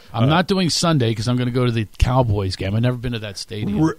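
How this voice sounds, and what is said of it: Philadelphia accent. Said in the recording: “I'm an Eagles fan ... if you couldn't tell from my accent. People make fun of my accent in Texas”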